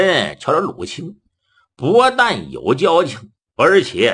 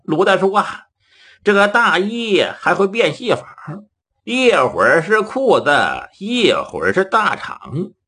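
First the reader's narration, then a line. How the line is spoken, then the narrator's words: Laughing. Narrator (Chinese): 杜林在旁边笑了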